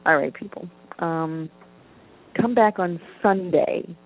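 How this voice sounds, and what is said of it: Put-on Brooklyn accent. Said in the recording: “I just go into various accents. I started with my whack British one. Now I'm talking like somebody from Brooklyn.”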